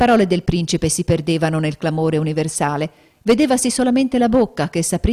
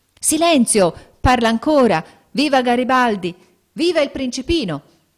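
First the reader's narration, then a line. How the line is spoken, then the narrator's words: Shouting. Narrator (Italian): gridando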